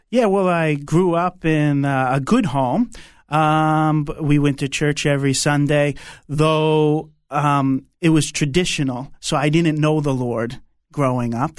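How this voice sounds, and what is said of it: New York accent. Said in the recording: “I love your New York accent. From Brooklyn and New York”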